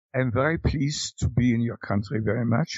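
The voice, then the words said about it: English with a mock German accent. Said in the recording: “speak English at least with a pseudo-German accent”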